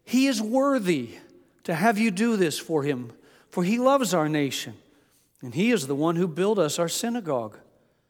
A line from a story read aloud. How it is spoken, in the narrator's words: the Jewish elders, came to Jesus, they pleaded with him earnestly, saying